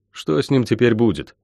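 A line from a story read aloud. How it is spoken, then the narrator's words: Plain question. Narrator (Russian): наконец спросил я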